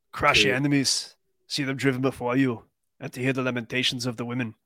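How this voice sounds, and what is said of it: Subdued Arnold impression, not yelling. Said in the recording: “Your Arnold impersonation has really fallen off. I'm disappointed. ... it's because I'm not screaming and yelling”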